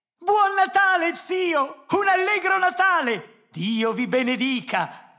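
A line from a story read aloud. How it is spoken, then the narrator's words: Joyful shout. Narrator (Italian): gridò una voce gioconda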